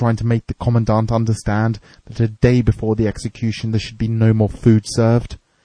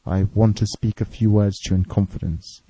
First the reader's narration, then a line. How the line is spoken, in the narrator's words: said